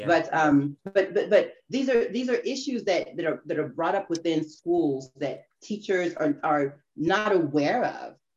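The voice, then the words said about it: American accent. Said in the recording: “you hear this now very American accent”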